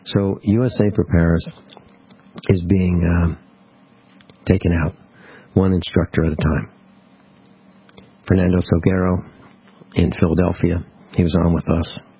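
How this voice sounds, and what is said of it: Sad, unusually subdued tone. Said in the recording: “hear the tone in my voice. It's not my usual tone. It's very, very sad.”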